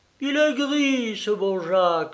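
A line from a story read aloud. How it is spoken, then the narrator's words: Exclaimed. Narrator (French): s'écria Sophie Viroflay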